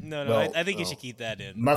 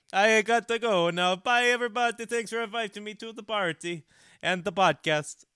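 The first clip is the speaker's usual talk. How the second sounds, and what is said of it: Put-on Italian accent. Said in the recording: “the Muffin Man's Italian accent is atrocious ... I thought it was kind of convincing”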